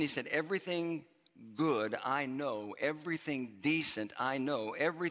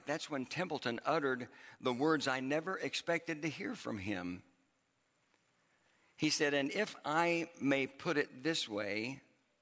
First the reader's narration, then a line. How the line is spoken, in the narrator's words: his voice began to crack